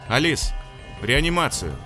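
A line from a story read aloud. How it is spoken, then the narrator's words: Shout. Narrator (Russian): крикнул он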